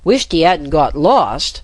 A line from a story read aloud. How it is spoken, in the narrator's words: cried out